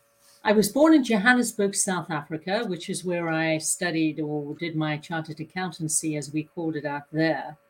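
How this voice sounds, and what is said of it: Slight South African accent. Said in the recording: “you have a little bit of a accent, or maybe I have the accent”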